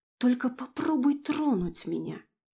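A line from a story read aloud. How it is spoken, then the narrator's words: Hateful hiss. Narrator (Russian): С ненавистью, зашипела в ответ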